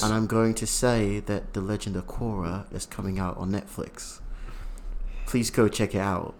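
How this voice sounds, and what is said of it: Put-on British accent. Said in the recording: “I'm going to switch over to my British accent.”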